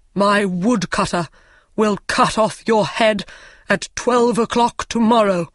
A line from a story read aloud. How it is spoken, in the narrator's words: he said angrily to Hans